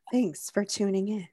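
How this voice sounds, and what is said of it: NPR-style radio host voice. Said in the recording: “I want to have an NPR voice real bad.... It was adequate.... No, it's like a 5.”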